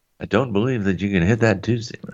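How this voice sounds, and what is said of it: Imitates a baseball announcer's voice. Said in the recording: “that was a really good impression”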